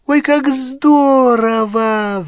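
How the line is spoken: Excited squeal. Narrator (Russian): взвизгнула Гермиона

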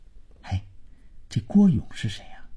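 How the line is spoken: Quiet question. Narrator (Chinese): 廖宇小声地问佳琪

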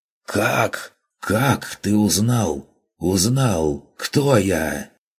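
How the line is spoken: Hoarse rasp of pinned creature. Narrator (Russian): прохрипела пригвожденное к полу существо

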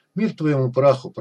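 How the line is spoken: Mutter. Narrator (Russian): пробормотал Виктор

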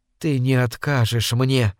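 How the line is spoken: Close intimate whisper. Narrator (Russian): прошептала она, вплотную приблизившись к нему

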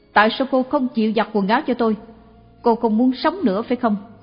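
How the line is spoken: Shouting. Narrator (Vietnamese): Người nọ hét lên

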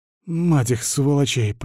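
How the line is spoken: Nearly sobbing. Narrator (Russian): почти рыдая произнес

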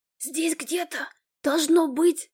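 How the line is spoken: Distant whisper. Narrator (Russian): Донесся до меня его шепот

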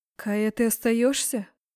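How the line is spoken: Cautious, hoarse question. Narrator (Russian): осторожно спросил, и голос стал хриплым

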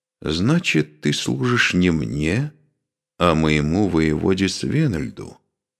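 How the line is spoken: Quiet question. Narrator (Russian): негромко осведомился князь

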